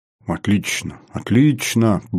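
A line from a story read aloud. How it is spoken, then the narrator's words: Muttering. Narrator (Russian): бормотал Поликарпов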